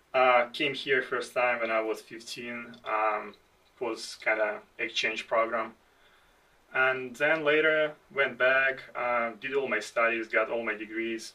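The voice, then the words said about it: Foreign, non-American accent. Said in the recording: “you can hear from my accent that I was born outside the United States”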